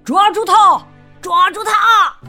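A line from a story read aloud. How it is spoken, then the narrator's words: Crowd shouting. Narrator (Chinese): 大伙儿都喊了起来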